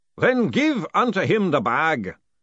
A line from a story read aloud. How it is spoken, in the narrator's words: boomed the distant voice